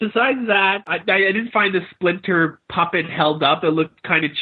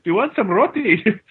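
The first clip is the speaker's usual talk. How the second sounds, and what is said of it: Bad put-on Jamaican accent. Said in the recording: “he sounds Jamaican ... That's a bad accent.”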